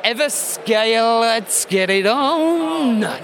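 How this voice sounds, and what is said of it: Sung impression of a soul singer. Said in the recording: “my Marvin Gaye impression ... I should get singing lessons”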